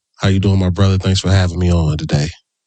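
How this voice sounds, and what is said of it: Smooth sexy voice. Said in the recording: “he coming out with his sexy voice”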